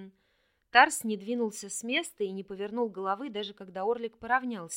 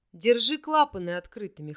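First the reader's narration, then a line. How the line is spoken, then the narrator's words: Smirking grunt. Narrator (Russian): хмыкнул Вельд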